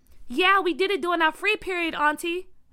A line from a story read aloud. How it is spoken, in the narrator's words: Byron yelled back